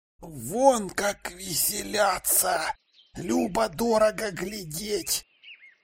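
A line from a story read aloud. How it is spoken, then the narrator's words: Whispered. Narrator (Russian): прошептал МакТавиш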